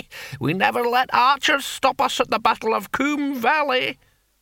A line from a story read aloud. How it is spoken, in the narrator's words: cackled the antique barbarian